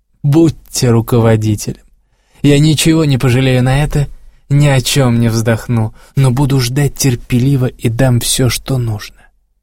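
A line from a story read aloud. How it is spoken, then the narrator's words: Blissful laughing speech. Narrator (Russian): блаженно смеясь, сказала она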